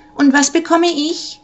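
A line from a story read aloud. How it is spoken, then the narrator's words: Impatient high voice calling. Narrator (German): rief eine helle Stimme ungeduldig dazwischen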